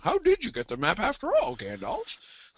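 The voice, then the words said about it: Goofy doofus character voice. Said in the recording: “And that voice. ... That was a nice Ori. That was good. ... it's not really a good imitation. I was just doing doofus generally, which is kind of how they've done Ori. ... it was more the genre of Ori's character rather than an actual impersonation.”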